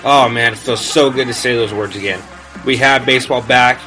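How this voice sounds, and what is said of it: Excited, energetic voice. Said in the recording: “if you can't tell in my voice already, I'm excited”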